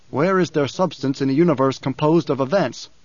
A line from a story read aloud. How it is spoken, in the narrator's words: Paul asked